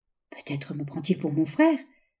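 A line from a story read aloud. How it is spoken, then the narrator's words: Murmuring. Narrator (French): murmura l'ingénieur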